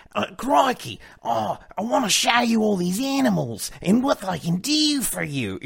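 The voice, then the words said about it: Enthusiastic Steve Irwin Australian impression. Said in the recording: “I like Steve Irwin, any Australian really ... he had this Australian accent, but he was so just like enthusiastic all the time”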